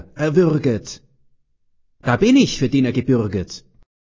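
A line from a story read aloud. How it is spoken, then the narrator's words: Called out. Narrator (German): ruft er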